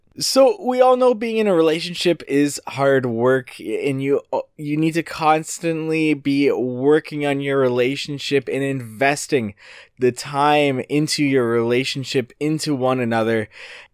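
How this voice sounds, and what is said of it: Congested voice from a cold. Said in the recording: “I've got a bit of a cold, so it's going to be a little bit difficult to get through this”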